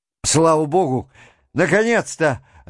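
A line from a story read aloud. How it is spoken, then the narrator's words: Joyful exclamation. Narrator (Russian): радостно вскричал он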